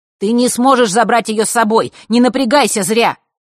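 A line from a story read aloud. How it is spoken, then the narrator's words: Shout. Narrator (Russian): крикнул он девочке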